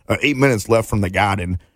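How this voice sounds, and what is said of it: Put-on Boston accent. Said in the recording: “That was my Boston Garden accent.”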